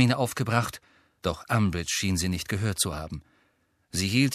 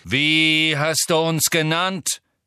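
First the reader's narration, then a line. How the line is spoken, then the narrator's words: Angry centaur's shout. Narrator (German): rief ein wild aussehender schwarzer Zentaur, den Harry als Bane erkannte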